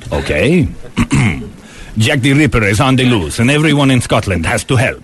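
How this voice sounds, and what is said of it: Yul Brynner impression, same accent. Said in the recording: “He'd just do that accent and you'd play a guy from Asia ... Yul, in this film, I need you to be the director of the Scotland Yard.”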